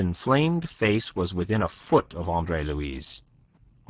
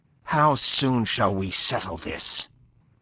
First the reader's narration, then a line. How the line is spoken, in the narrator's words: snapped Chabrien, livid with real fury